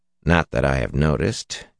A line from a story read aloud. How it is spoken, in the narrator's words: said flatly